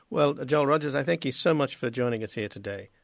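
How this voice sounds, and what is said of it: Australian accent. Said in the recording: “I don't know what your accent is. ... Australian, right.”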